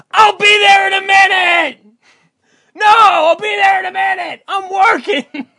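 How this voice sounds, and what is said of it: Yelling, imitates another person's voice. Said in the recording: “You're yelling upstairs”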